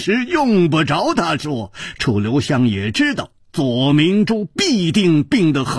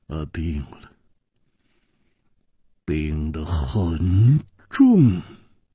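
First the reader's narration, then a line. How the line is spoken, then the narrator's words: Heavy sigh, gloomy. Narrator (Chinese): 左青侯沉重地叹息了一声，黯然说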